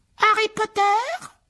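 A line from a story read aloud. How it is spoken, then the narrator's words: Small shrill piercing voice. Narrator (French): dit la créature d'une petite voix aiguë qu'on devait sûrement entendre dans toute la maison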